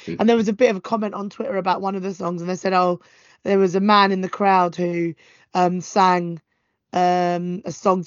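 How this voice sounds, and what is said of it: Strained, worn-out voice. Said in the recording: “I hope your voice sounds like it's getting better, but it sounds like it's got better and now it's got worse again ... I was shouting quite a lot today”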